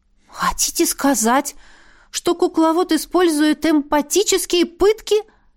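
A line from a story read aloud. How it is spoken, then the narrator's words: Stunned exclamation. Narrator (Russian): ошарашенно воскликнула я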